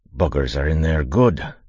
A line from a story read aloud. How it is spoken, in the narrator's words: he said, grunting with the strain